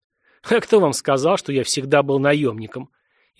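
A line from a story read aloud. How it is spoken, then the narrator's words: Ironic snort. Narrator (Russian): иронично хмыкнул боец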